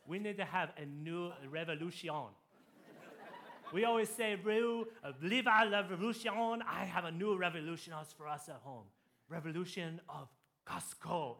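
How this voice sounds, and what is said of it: Put-on French accent. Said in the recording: “I'm going to do my French accent here.”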